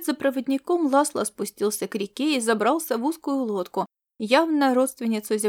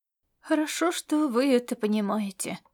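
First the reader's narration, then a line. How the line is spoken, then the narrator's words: Old man's gruff mutter. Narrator (Russian): буркнул старик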